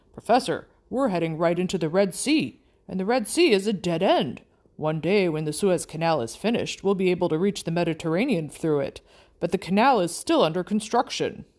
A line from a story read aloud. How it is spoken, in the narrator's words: he exclaimed